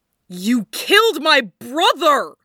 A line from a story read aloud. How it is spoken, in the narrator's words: roared in reply